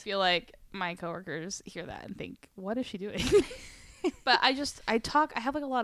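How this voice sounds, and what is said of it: Usual voice. Nothing is said of it.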